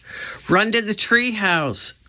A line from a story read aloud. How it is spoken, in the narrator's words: cried Annie